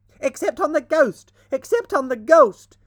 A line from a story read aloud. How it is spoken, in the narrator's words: shrieked the twins as they capered about